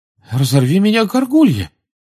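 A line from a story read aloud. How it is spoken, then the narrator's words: Astonished exclamation. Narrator (Russian): изумленно воскликнул мистер Уизли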